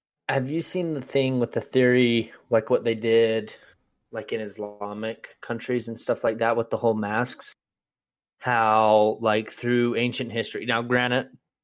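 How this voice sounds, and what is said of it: Sanpete regional accent. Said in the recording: “It's that Sanpete accent”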